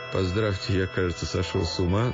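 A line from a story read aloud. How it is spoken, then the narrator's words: Joking tone. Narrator (Russian): хотел сказать тестю шутливым тоном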